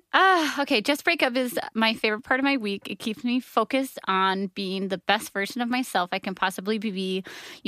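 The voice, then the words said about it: Tearful, emotional reading voice. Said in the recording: “I'm getting emotional... She's really crying, y'all. Her eyes are full of tears.”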